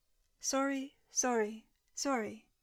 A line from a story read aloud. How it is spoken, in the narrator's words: said Jarvis in a monotone, in time with the frantic movements of the soldier's hand